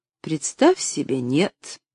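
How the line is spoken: Dry reply. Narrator (Russian): сухо отозвалась миссис Сноу

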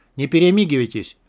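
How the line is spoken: Sharp bark. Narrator (Russian): резко гаркнула Кандыба

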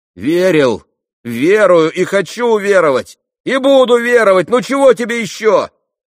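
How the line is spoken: Irritated shout. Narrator (Russian): раздражительно прокричал Алеша

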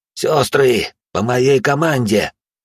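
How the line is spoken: Hoarse rasp. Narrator (Russian): прохрипел я

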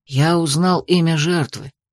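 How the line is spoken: Quiet. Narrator (Russian): произнес он тихо

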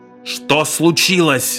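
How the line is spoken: Yelling. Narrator (Russian): заорал Моррисон

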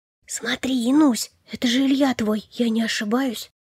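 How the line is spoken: Whisper. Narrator (Russian): Прошептала Варя

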